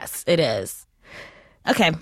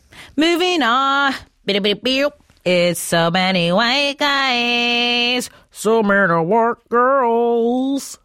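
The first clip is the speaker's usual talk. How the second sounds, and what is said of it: Imitates a rock singer's voice. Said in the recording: “my Pearl Jam impression... it sounds like a car engine flooding”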